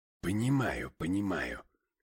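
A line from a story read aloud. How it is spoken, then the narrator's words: Grumbling mutter. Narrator (Russian): пробурчал я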